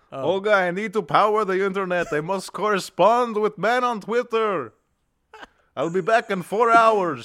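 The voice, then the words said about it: Put-on European accent. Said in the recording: “If you do a European accent, it's not racist.”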